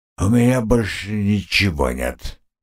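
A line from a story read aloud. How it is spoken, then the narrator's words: Slurred drunken grumble. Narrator (Russian): заплетающимся языком пробурчал он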